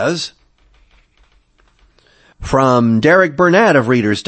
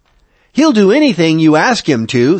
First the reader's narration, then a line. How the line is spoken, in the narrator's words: says Serrano